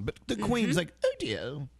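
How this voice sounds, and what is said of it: Posh elderly British queen impression. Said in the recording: “You do the best queen impersonation. ... You're the best queen.”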